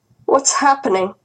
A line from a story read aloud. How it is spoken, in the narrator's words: Grandma asked anxiously